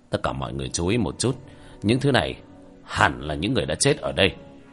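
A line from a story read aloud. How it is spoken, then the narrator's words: Low voice. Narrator (Vietnamese): Hứa Trinh Dương nhỏ giọng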